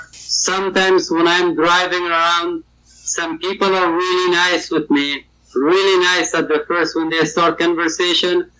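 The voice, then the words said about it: Afghan-accented English. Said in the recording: “my English accent ... I'm from Afghanistan”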